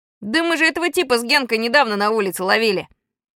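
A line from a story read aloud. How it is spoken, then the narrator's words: Yell. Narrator (Russian): Венька ... заорал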